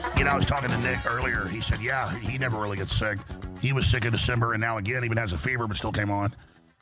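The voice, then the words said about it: Hoarse, laryngitic voice. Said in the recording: “laryngitis... my voice is a little bit better today... with the throat like this”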